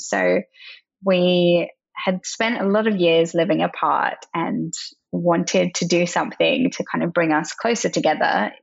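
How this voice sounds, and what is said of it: Mixed English and Australian accent. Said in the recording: “I have a bit of a funny English and Australian accent”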